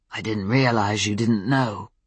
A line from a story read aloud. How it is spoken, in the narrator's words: Ben said, his voice still rough